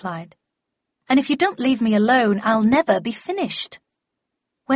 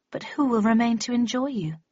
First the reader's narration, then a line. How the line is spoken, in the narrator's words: She sighed dramatically